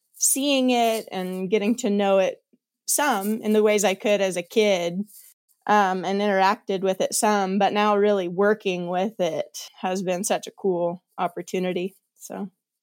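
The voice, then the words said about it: Slight Kansas twang accent. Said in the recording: “you sound more Kansas-y than when I last talked to you in Montana... a bit of a Kansas accent... a little more twang”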